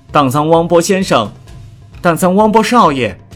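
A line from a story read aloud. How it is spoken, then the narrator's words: Sudden distant call. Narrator (Chinese): 突然，楼下有人在喊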